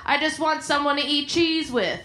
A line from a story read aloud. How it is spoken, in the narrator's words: guzzling it down and shouting between bites